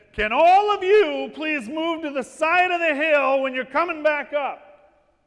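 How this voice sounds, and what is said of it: Loud, commanding adult shout. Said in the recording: “I shouted down the hill in my big adult voice”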